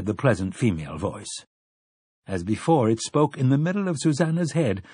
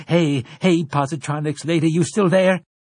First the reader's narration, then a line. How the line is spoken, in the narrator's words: Summoning her own concentration, Susanna cried into the well of her own mind